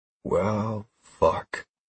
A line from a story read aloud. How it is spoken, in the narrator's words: I said in a hushed voice